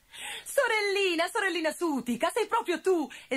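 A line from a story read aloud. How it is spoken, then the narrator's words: Joyful exclamation. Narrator (Italian): esclamò Gobbolino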